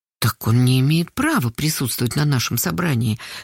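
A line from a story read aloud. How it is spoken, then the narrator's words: Very quiet. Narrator (Russian): совсем тихо сказала Карпушкина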